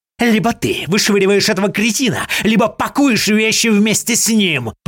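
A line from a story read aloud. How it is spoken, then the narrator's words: Hissing. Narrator (Russian): прошипел Артемьев, приблизившись ко мне почти вплотную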